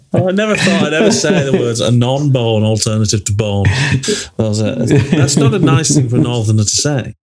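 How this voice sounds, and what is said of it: Northern English accent. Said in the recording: “I love hearing you say "bone" in a northern accent. It sounds great.”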